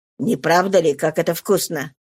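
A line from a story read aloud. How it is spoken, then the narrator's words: Mumbling with full mouth. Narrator (Russian): пробормотала Сатен с полным ртом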